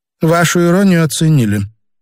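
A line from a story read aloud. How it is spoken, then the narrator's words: Gloomy woman. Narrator (Russian): мрачно сказала Елена Казимировна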